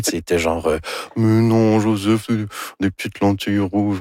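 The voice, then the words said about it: Imitates another person's voice. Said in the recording (French): “Ça, c'est mon imitation de Anne Dorval. ... C'est très réussi”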